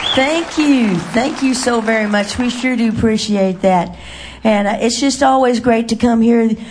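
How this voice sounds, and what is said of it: Slightly raspy, hoarse voice. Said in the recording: “I kind of sound a little raspy. I guess it's allergies. ... So if you hear a little rasp”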